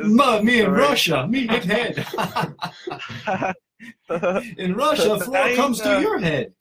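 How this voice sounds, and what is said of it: Put-on Russian accent. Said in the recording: “spoke with a Russian accent”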